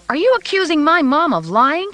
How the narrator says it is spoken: she cried

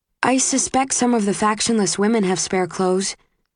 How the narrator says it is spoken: says Susan

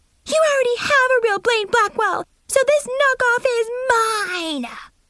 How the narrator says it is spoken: Mackenzie screeched

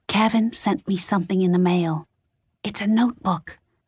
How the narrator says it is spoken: Lexi whispered into her cell phone

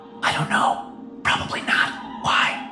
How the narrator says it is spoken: The stagehand whispered

